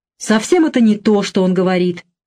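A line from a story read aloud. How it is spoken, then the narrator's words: Irritated, deeply hurt objection. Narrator (Russian): раздраженно возразил глубоко задетый Оскар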